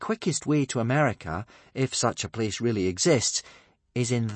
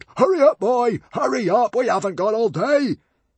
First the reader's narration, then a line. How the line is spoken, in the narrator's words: Norbert grew impatient and roared